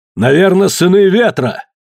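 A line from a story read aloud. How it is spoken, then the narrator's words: Shouted over shoulder. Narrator (Russian): Кидога крикнув через плечо встревоженным друзьям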